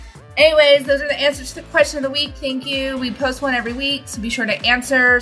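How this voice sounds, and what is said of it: Usual voice. Nothing is said of it.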